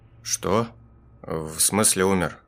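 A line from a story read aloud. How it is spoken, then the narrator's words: Trembling voice. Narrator (Russian): Дрожащим голосом переспросил я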